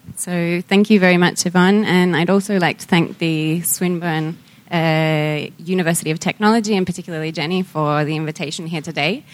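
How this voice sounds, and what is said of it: Australian accent. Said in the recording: “I do have an Australian accent”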